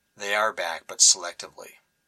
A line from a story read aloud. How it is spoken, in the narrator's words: disdain in her voice that was hard to miss, she said